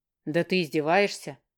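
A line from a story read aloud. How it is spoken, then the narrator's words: Surprised scoff. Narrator (Russian): Удивленно хмыкнул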